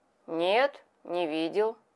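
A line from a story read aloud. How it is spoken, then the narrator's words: Calm answer. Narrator (Russian): ответил он спокойно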